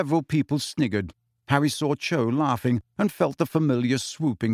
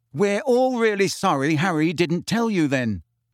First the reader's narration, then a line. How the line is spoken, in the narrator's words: said Fred loudly